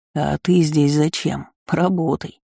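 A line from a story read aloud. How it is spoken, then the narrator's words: Disrespectful snort. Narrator (Russian): непочтительно фыркнул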